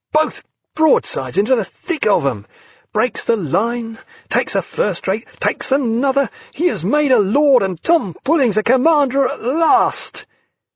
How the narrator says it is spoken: Pullings, a little elevated, cried

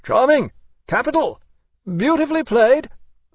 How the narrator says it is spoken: Hart, called out

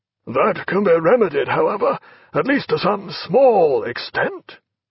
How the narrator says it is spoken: he said aloud in a hoarse croak

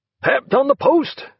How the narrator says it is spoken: cried the Admiral

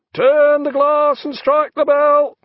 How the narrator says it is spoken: cried the quartermaster at the con

